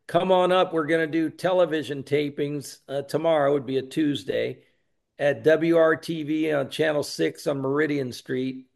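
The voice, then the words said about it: Southern US accent, Georgia or Texas. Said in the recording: “I have an accent... Sounds like you're from Georgia or Texas... I talk funny”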